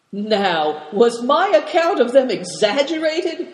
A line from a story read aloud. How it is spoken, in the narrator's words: cried Moonlight